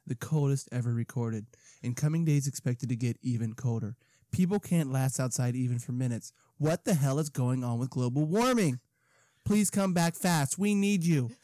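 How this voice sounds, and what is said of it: Imitates another person's voice. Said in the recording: “Why do you have a Trump voice? ... It wasn't very good, was it? ... I thought he was trying to be like a radio voice.”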